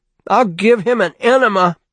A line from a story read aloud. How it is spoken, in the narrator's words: Bruce screamed